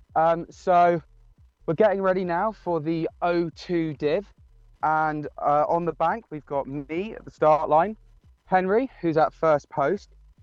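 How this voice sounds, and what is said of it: Out of breath speaking. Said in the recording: “try to not sound too out of breath ... had to sort of sprint the last little bit”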